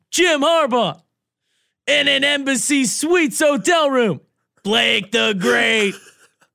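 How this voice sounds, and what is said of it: Imitates a sports announcer's voice. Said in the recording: “his Gus Johnson impersonation ... I got to bust into the Gus ... Let me get into the Gus.”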